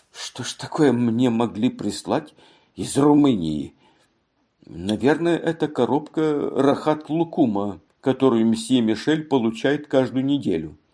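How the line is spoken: Muttering. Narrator (Russian): она бормотала

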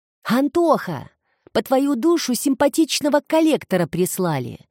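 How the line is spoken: Woman yelling loudly. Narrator (Russian): заорала продавщица

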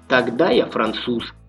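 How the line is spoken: Plain. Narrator (Russian): сказал Марик

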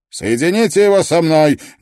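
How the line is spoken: Barked. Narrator (Russian): гаркнул Грисдейл

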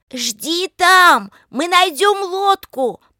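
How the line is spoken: Shouting. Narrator (Russian): прокричала Лика

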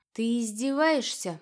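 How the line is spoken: Gloomy reply. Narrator (Russian): мрачно отозвалась я

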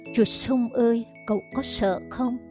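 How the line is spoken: Trembling, faint voice. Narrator (Vietnamese): Nó lấy hết hơi mà chỉ có thể run run khẽ nói

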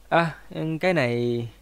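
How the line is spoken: Gentle laughing speech. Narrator (Vietnamese): Lý Hoa Nguyên nhẹ nhàng cười nói

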